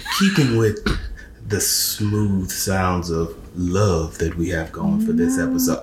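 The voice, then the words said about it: Smooth radio announcer voice. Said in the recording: “I'm gonna put on my radio voice. ... I can't keep that up.”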